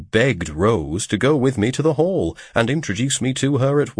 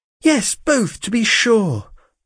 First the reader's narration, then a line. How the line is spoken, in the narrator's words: cried Rose